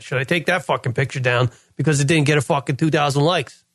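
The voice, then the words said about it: New York accent. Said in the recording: “My New York accent just kicked in right there.”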